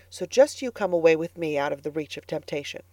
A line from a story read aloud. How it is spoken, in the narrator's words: said Anne firmly